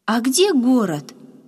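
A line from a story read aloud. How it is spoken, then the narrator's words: Joyful curious question. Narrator (Russian): Радостно сверкнув глазами, заинтересовался Яша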